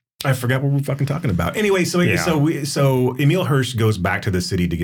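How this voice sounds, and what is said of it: Usual voice. Nothing is said of it.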